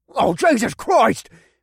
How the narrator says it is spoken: one of the men screamed

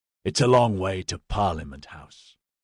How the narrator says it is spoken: Boate growled

